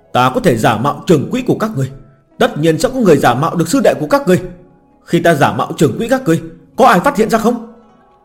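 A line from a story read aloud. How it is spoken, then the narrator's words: Hurried shout. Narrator (Vietnamese): Phan Trường Quỹ giả vội la lên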